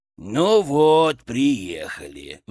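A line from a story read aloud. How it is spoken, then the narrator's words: Sigh. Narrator (Russian): вздохнул Фырк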